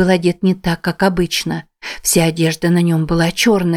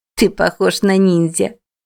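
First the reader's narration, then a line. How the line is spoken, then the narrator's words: Giggling. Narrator (Russian): хихикнула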